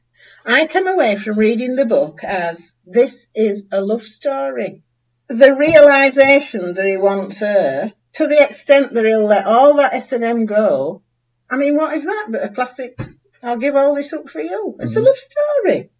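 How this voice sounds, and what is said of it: Animated Yorkshire accent. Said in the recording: “She's quite animated, isn't she? ... she sounds like my impression of you, Calvin. ... she's from Yorkshire.”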